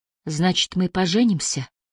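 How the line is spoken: Tearful whisper. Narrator (Russian): Он почувствовал теплые слезы на ее щеке, когда она прошептала

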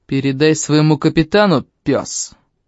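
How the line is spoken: Growled. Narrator (Russian): рыкнул Найвилл

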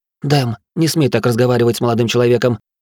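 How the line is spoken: Indignant woman's shout. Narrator (Russian): Возмущенно прикрикнула женщина

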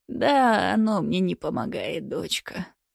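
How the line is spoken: Old woman's sigh. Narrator (Russian): вздохнула старушка

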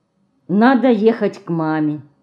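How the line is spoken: Sighing. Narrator (Russian): вздохнула Мышка

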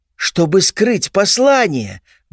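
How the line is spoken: Exclamation. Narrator (Russian): воскликнула она

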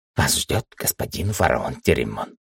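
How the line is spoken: Whisper. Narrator (Russian): шепотом сказал

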